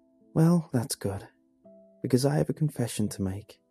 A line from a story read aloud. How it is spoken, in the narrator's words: Sarah breathed a sigh of relief and said